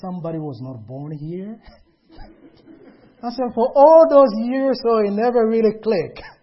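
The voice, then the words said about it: Foreign accent in English. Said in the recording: “do you have a foreign accent? ... it's like a funny accent ... you guys speak a little bit funny”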